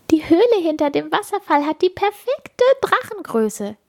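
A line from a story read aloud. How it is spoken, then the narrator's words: Giggling. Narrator (German): kichern sie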